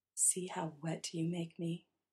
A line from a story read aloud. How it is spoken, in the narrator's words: whispers